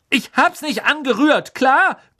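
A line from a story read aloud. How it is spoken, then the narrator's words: Shouting back. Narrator (German): brüllte Ron zurück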